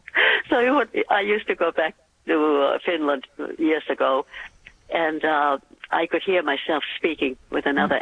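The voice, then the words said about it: Accent between Finnish and American. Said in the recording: “You have the most beautiful accent ... I was born in Finland, ... Brought up in Massachusetts. My yeah. accent is in the middle of the Atlantic Ocean.”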